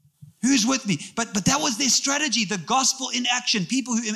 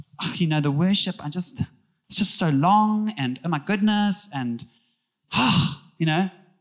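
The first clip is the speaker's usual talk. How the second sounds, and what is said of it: Put-on local South African accent. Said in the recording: “I'm using an Umschlange accent that I'm from”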